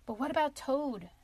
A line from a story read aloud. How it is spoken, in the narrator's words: asked Mole anxiously